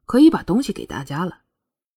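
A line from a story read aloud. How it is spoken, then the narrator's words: Soft reminder. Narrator (Chinese): 轻声提醒了程程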